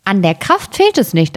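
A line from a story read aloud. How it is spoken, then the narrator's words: Plain. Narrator (German): antwortete das Schneiderlein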